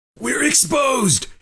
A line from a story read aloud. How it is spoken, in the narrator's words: He shouted through the wrap of torn cloth covering his mouth and nose